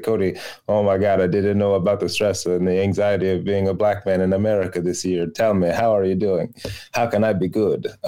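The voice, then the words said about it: Mixed Greek-Italian put-on accent. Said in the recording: “Where was the accent? ... It was a combination of all the ... that voices. Was like a Greek mixed with Italian. I think there was a Jewish guy in there. ... Attempted ally voice.”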